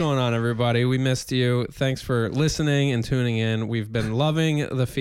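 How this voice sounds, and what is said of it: Usual voice. Nothing is said of it.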